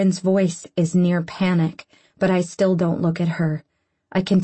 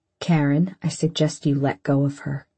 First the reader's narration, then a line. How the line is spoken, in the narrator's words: he says as calmly as a threat can possibly sound